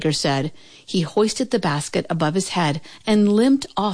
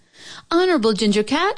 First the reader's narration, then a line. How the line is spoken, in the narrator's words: she called out